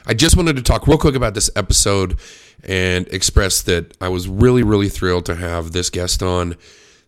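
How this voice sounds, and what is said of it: Voice not quite normal, unwell. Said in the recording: “I apologize for my voice. I've had the flu for 5 days, and I'm just now starting to sound like myself again.”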